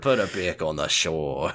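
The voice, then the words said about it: Put-on Australian accent. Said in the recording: “I don't know why I turned Australia ... You did an outstanding Australian accent”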